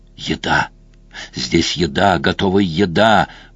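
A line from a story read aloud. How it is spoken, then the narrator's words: Creaky voice. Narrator (Russian): проскрипел голос Такера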